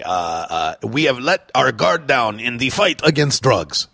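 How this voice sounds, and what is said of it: Poor put-on French accent. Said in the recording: “that's a terrible French accent”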